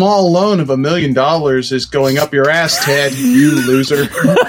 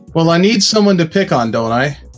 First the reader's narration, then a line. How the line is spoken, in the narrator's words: Trump chuckled